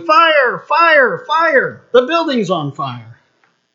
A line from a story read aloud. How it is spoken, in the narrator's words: they're yelling